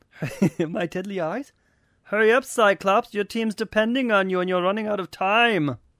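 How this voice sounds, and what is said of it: Magneto in strange German accent. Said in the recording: “Says Magneto in a strange German accent.”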